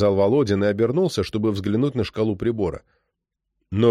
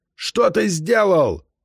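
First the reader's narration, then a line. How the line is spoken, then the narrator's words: Shouting over engines. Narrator (Russian): закричал майор, перекрывая шум двигателей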